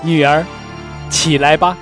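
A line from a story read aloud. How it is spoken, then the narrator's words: Calling out. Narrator (Chinese): 呼叫说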